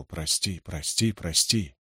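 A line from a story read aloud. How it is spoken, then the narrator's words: Whisper. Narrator (Russian): Мати плакал в бурые складки его одеяния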